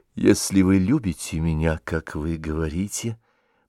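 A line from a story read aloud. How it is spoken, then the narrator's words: Whisper. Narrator (Russian): прошептала она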